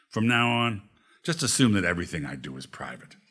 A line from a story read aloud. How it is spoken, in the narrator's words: said firmly